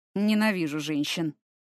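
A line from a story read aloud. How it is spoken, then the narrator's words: Exasperated grumble. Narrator (Russian): в сердцах буркнул Фортом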